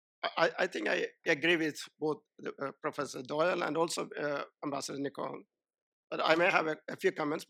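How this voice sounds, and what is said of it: Impaired, unwell-sounding voice. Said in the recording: “apologize for my voice. I'm suffering from a very serious allergic reaction, so please excuse me for my voice.”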